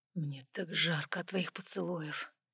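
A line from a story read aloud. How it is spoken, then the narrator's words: Hoarse young man. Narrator (Russian): хрипло произнес парень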